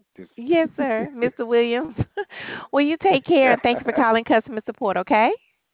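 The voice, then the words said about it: Southern US accent. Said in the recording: “You sound like you're in the South. ... I'm in Georgia.”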